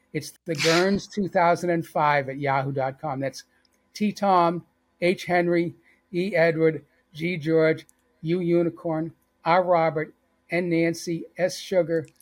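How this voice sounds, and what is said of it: Slight Boston accent. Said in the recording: “I guess I still have a little bit of Boston accent.”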